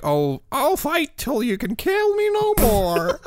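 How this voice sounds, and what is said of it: Croaky goofy nerdy voice. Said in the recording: “That's my best Jay Baruchel. A lovable, goofy nerd with a croaky voice.”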